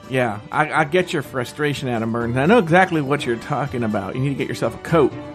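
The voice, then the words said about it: Southern American accent. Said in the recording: “you're going to have that southern accent the whole time? ... it's the way I talk.”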